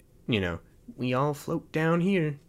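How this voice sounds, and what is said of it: Imitated horror clown character voice. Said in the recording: “I need to stop doing impressions ... mimicking voices”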